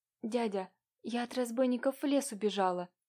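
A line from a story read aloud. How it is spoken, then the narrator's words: Quiet. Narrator (Russian): начала тихо Катюша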